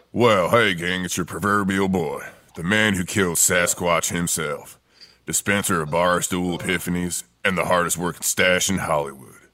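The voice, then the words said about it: Deep smoky gravelly impersonated voice. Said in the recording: “my voice sounds so deep and smoky”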